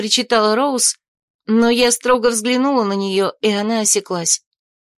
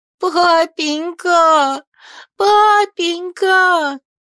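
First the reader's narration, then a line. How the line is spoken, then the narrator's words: Sobbing. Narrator (Russian): рыдала она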